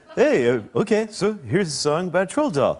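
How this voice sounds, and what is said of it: Impression of the co-host. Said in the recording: “Your impression of me is ... you. ... Unbelievable. I've never seen you do an impression.”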